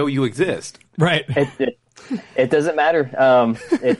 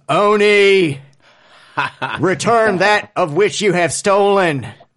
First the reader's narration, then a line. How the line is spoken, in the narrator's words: yells